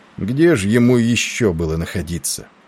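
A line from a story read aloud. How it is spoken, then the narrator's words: Gloomy interrupting voice. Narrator (Russian): прервал его мрачным голосом Тиндал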